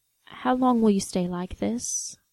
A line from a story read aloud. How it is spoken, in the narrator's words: John murmured finally